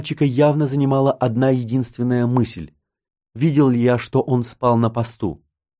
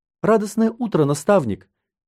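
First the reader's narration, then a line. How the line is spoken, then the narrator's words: Thin little voice. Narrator (Russian): тоненьким голоском ответил он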